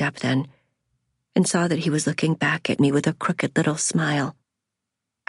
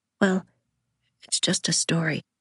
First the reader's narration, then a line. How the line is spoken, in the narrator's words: I said